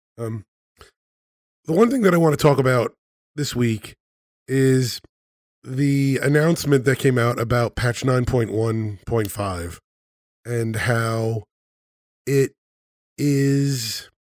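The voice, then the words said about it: Raspy voice from a cold. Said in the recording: “I have a bit of a cold here, so my voice is a bit raspy,”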